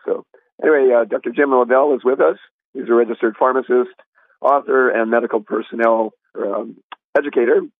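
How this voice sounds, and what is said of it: Voice sounds ill, under the weather. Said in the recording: “my voice is a little under the weather. I actually feel better than I sound”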